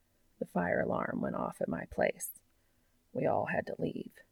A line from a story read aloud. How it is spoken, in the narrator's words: says quietly